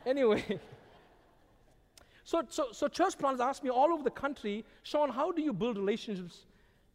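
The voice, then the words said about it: Strong non-native English accent. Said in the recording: “we thank you for ... accent... never anyone thank me for my accent... please help ... talk slower. Help him to pronounce the words better.”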